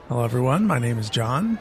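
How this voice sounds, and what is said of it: Put-on American accent. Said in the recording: “He says in an American accent, apparently.”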